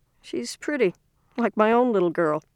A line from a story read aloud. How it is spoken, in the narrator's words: the tall one said in a more pleasant voice